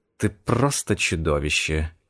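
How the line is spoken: Breathed out. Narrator (Russian): выдохнула

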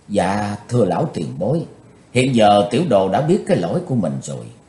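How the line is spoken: Soft, remorseful. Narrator (Vietnamese): Ngẩng gương mặt lên đầy vẻ hối hận, Chí Tôn nhỏ nhẹ nói

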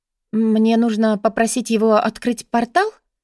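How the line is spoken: Uncertain suggestion. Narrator (Russian): неуверенно предположила Бри

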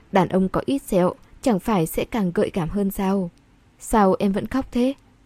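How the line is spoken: Soothing, coaxing. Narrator (Vietnamese): Anh dỗ cô

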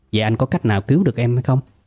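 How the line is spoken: Plain. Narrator (Vietnamese): tôi hỏi

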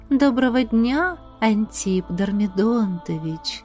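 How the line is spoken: Sweet languid purr. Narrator (Russian): Сладким, полным неги и томления голосом промурлыкала Настюшка

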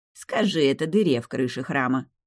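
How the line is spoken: Grumbling. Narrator (Russian): пробурчал кот

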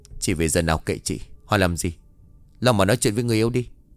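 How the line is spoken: Annoyed. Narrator (Vietnamese): Ngọc trả lời bằng một giọng bực bội

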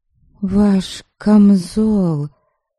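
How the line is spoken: Guilty drawl. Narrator (Russian): Виновато протянула я

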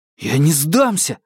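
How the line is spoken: Hoarse growl. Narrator (Russian): хрипло рыча

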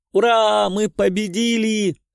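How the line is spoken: Girls shouting. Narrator (Russian): кричали девчонки-полузащитницы

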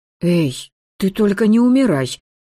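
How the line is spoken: Anxious pleading. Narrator (Russian): взволнованно попросила я

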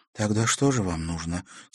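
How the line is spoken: Quiet question. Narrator (Russian): тихо спросила Наташа

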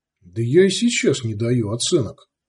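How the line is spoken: Plain. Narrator (Russian): сказал Сварог

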